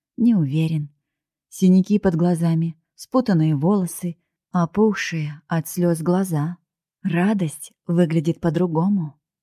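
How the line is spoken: Gentle, smiling. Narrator (Russian): мягко улыбнулся он

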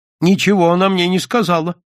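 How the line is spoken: Frightened, angry father. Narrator (Russian): испуганно и сердито сказал отец

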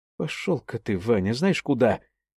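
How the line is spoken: Quiet. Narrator (Russian): тихо проговорила она

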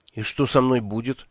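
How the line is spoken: Frightened question. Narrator (Russian): испуганно спросил я

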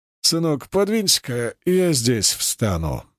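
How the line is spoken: Gentle request. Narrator (Russian): мягко попросил он часового

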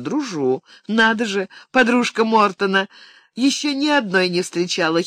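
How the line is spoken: Giggling young woman. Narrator (Russian): хихикнула девица

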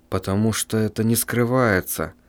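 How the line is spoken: Muttering. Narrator (Russian): пробормотал писатель

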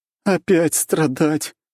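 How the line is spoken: Moan. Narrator (Russian): простонала Рейна

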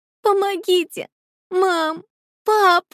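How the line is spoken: Loud sobbing cries. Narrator (Russian): Громогласные всхлипы и призывы о помощи разносились по комнате

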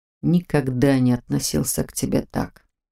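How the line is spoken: Whispered. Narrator (Russian): прошептал он

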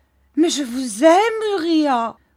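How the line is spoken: Exclaiming. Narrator (French): s'écria Mistress Hip

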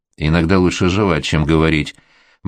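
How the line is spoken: Gloomy quoting. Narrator (Russian): мрачно процитировала

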